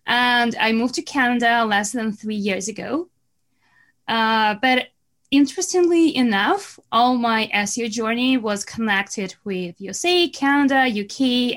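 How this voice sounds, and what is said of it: Russian-sounding accent. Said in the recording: “my accent can sound like this, you know, this Russian accent.”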